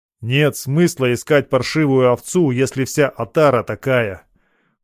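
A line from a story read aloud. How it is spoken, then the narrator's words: Loud and angry. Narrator (Russian): громко и зло сказал я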